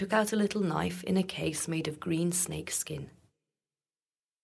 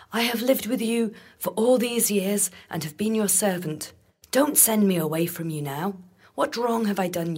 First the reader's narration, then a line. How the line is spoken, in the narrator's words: His soul inside him called out to him